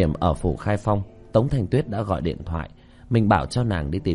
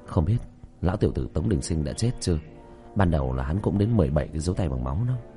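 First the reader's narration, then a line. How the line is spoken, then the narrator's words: Soft whisper. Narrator (Vietnamese): Tiểu Thất khẽ thì thầm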